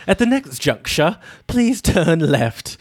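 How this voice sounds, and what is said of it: Posh British GPS woman's voice. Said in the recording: “let's just have a British person say this because it's going to sound fancier and it's going to sound more official if it's coming out of some British woman's voice ... the British woman voice ... on GPSs for your cars”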